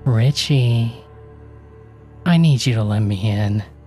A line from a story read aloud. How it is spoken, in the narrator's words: she said in the most sensual voice